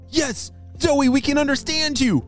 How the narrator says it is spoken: shouted Callum

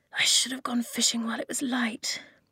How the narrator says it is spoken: she muttered

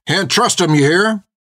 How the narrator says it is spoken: He began shouting at the crowd again

